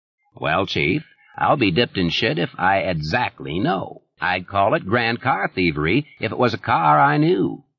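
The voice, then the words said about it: Deep, satiric Maine accent. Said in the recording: “that deep and somehow satiric Maine accent that turned a simple word like barn into something that sounded almost like a bray of laughter”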